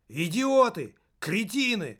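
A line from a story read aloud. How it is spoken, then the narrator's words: Yelling. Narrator (Russian): завопил Пенза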